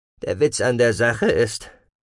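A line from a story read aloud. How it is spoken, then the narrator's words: Dry. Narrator (German): sagte trocken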